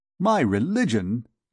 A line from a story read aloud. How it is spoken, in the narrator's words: exclaimed the captain, bursting with laughter